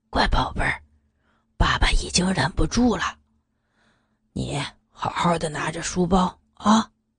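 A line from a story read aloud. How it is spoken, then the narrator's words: Soft whisper. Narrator (Chinese): 刘元 在女儿耳边轻声的说道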